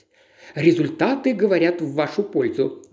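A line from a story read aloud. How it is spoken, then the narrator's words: Laughing. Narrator (Russian): засмеялась Сильвия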